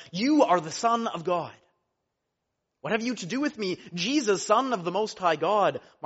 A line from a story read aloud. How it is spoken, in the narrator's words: the unclean spirits saw him, they fell down before him and cried out